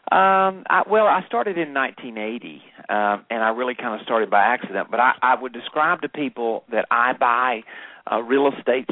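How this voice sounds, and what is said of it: Southern American accent. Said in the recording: “you don't have an English accent. ... I would say it's pure Southern, but it's become kind of my trademark.”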